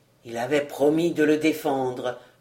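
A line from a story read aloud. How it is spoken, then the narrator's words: Murmured. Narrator (French): murmura-t-il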